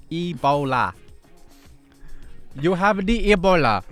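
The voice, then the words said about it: Odd put-on accent. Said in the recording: “What was that freaking accent?”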